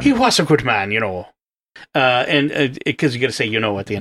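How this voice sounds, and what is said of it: Put-on Irish accent. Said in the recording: “With my wonderful Irish accent. I bet everyone out there thought, where did this Irishman come from?”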